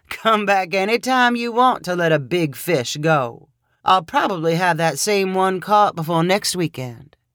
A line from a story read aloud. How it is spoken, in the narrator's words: he laughed and said